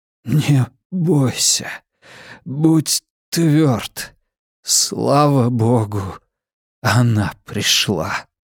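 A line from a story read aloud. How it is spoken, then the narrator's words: Breathed out. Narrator (Russian): Выдохнул Китс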